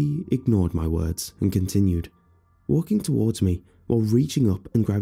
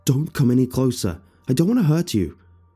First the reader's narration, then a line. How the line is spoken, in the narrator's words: I yelled out as loudly and powerful as I could, even though at this point I was scared witless